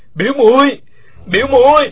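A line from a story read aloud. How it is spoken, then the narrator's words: Shouting from the ground. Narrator (Vietnamese): Uông Khiếu Phong nằm trên mặt đất gào to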